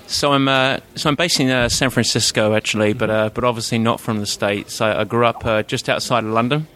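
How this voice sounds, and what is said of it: English accent. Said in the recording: “you've got a Pommy accent”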